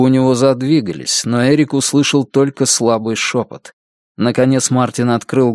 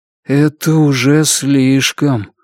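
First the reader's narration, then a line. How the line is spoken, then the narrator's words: Gloomy. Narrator (Russian): мрачно проговорил Мартин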